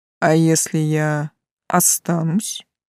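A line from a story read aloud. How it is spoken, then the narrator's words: Soft clarifying question. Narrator (Russian): мягко уточнил Тан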